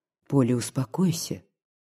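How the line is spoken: Quiet. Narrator (Russian): тихо сказал Егор Александрович

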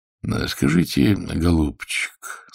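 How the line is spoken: Kind, sympathetic. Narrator (Russian): сказал он ласково, всем своим видом являя человеческое участие и доброту

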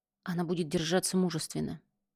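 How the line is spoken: Whispered. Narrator (Russian): прошептал Бильяр

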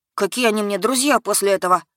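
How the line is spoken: Young man grumbling. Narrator (Russian): Пробурчал паренек

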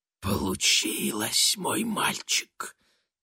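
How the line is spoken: Soft whisper, grandmother. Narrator (Russian): тихо прошептала бабушка

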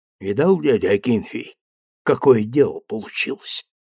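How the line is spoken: Fervent whisper. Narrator (Russian): пылко шептал Илья

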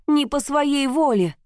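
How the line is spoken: Shouting. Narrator (Russian): уже кричала

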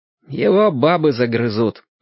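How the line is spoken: Grim. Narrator (Russian): сказал он мрачно

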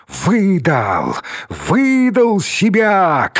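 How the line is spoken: Shouting. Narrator (Russian): кричал Георгий Николаевич

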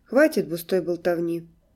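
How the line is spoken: Sharp command. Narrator (Russian): велел он резко

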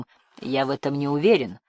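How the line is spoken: Grim, terse. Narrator (Russian): мрачно проронил

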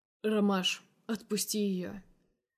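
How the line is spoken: Calm. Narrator (Russian): Спокойно произносит грех

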